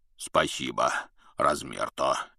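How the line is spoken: Deep bass voice. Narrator (Russian): пробасил Хагрид

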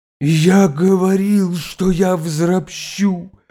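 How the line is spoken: Hoarse furious shout. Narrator (Russian): хрипло кричал он, пылающим перекошенным лицом

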